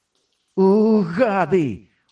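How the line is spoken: Desperate cry. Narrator (Ukrainian): увідчаї скрикнув я

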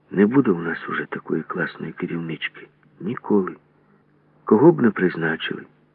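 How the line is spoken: Trembling voice. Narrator (Ukrainian): Грибенючка тремтячим голосом промовила

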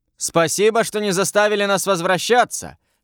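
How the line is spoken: Man shouting back. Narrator (Russian): крикнул один из мужиков в ответ

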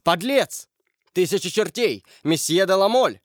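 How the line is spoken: Exclaiming. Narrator (Russian): воскликнул Коконас

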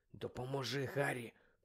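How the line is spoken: Mutter. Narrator (Ukrainian): Пробурмотів він

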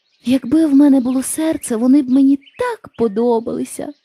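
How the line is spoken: Sighing. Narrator (Ukrainian): зітхнув бляшаний лісоруб

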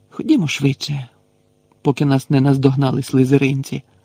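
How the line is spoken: Sighing. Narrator (Ukrainian): зітхнула Герміона

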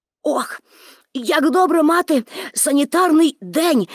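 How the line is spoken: Exclaimed with full mouth. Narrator (Ukrainian): вигукнув Томі, напихаючи рота оладками

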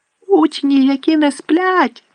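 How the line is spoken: Shriek. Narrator (Ukrainian): заверещав Півз

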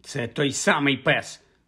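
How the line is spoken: Angry reply. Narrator (Ukrainian): сердито відповіла Софі

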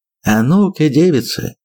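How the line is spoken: Cheerful. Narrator (Russian): бодро сказал наш приятель Нос

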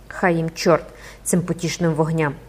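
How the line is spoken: Muttered. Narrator (Ukrainian): пробурмотів Гренгуар

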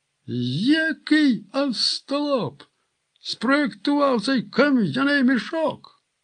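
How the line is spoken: Despairing groan. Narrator (Ukrainian): простогнав у відчаї комендант

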